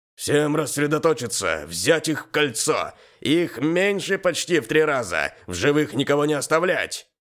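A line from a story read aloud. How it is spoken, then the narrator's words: Sergeant shouting orders. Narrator (Russian): Кричал один из сержантов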